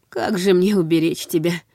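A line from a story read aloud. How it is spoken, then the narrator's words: Sighing. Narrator (Russian): вздохнул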